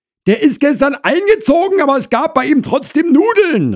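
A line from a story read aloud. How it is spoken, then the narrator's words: Called out. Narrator (German): rief Frau Krause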